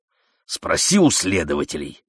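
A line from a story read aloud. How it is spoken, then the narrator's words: Irritated. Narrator (Russian): сказал Даврон раздраженно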